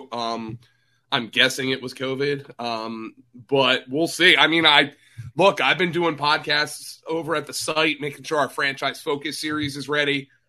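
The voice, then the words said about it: Slightly hoarse, croaky voice. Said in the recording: “I have a little frog in my throat.”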